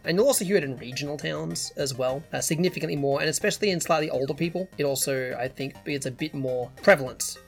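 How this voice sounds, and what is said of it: Mild, in-between Australian accent. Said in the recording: “typical nasally Australian voice ... mine is very much this weird kind of in the middle, slightly uncommon accent”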